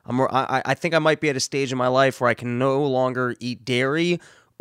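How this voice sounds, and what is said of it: Congested, nasal voice. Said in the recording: “my voice sounds a little bit off ... sounding like a nasally”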